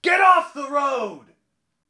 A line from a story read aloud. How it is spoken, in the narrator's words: the coachman suddenly shouted at the top of his voice